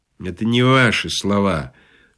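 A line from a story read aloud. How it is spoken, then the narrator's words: Prompter's sleepy remark. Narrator (Russian): сонно заметил суфлер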